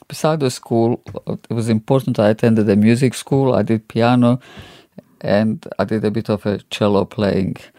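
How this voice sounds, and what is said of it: Non-distinct non-native accent. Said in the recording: “As you can hear, I've got an accent, non-distinct because of the trilingual upbringing.”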